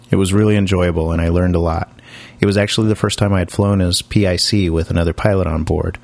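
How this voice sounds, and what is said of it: Voice a little off, sick-sounding. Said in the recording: “my voice sounds a little off. Unfortunately, I've come down with a cold ... my voice isn't really up to snuff yet”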